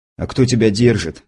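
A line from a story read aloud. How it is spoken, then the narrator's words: Gruff mutter, restrained anger. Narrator (Russian): буркнул, с трудом удерживаясь от мата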